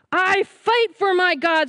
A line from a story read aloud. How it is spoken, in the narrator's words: roared Goliath